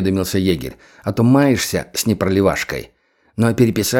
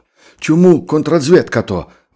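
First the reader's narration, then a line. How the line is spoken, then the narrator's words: Howling wail. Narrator (Russian): взвыл завхоз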